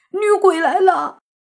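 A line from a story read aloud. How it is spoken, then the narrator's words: Howling shout. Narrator (Chinese): 慕云逸瞪着眼睛，一嗓子嚎叫，大喊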